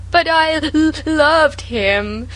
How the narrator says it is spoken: sobbed Sarah

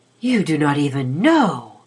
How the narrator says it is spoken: she breathed

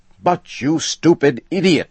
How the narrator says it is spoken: shouted Mr

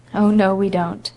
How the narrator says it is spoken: said Anne, shaking her head gravely

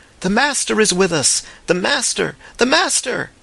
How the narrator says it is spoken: The shout swept athwart the lake of faces like a wave, broke against the distant cliff of ruins, and came back in a welter of cries

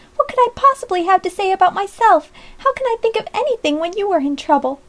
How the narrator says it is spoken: exclaimed Polly reproachfully

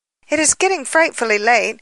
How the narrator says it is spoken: she sharply exclaimed

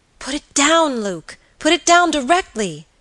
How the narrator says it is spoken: cried the girl with a look of terror

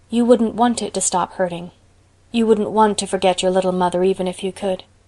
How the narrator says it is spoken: said Anne very softly

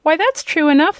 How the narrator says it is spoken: exclaimed Dorothy

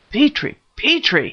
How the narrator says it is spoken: cried

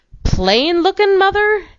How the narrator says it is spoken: exclaimed her husband in astonishment

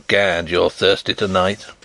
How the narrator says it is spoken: chuckled Sapt

